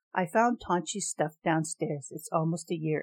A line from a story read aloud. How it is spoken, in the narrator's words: Anne said